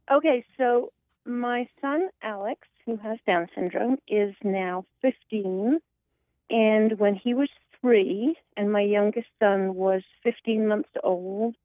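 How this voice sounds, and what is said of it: Speaker with a noticeable accent. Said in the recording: “your beautiful accent”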